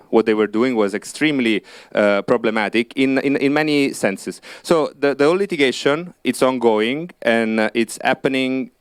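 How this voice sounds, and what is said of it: Italian accent. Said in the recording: “Italy, which is where I'm from, maybe you may have guessed it by my accent”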